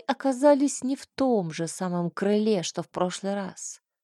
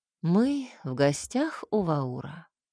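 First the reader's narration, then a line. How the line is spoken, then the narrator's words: Calm reply. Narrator (Russian): спокойно ответила чернокнижница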